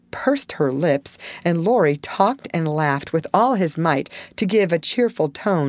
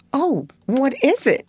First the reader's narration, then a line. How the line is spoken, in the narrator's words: exclaimed Joe, trembling